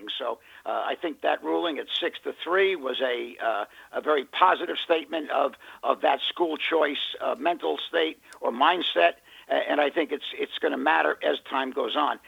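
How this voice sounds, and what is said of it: Hoarse voice. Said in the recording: “I'm really hoarse today”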